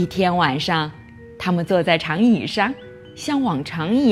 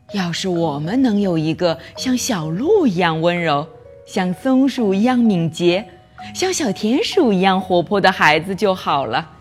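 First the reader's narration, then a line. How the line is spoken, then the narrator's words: Sighing wistfully. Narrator (Chinese): 农夫和他的妻子叹气说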